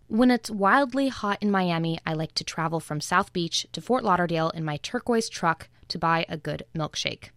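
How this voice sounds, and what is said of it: Standard American accent. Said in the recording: “who has a pretty standard American accent”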